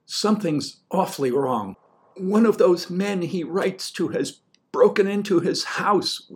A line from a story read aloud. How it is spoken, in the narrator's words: wailed Gumma